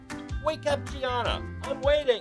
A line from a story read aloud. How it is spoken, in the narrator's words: my mom yelled from the kitchen